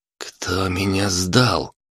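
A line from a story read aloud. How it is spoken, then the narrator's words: Young man rasping. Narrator (Russian): прохрипел парень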